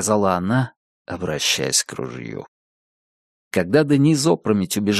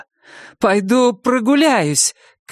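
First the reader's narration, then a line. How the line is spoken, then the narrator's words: Shout. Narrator (Russian): крикнула Дениз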